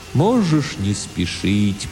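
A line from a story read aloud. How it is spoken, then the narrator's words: Strange sad distant voice. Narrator (Russian): произнес Тимолти очень странным, грустным, далеким, философическим голосом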